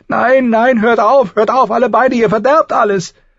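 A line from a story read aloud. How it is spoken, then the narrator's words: Shrieking. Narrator (German): Sansa kreischte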